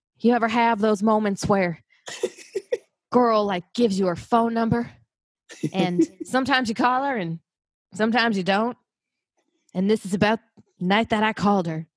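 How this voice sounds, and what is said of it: Imitates a singer's speaking voice. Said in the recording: “this is going to be my Brandon Flowers impression ... He kind of talks like Elvis ... that's kind of what he sounds like”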